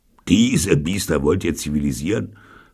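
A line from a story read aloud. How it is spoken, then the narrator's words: Mocking question. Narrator (German): fragte Sargnagel spöttisch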